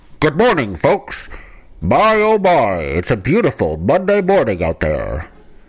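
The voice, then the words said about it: Radio announcer voice. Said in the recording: “You like my radio announcer radio voice? ... this radio announcer character”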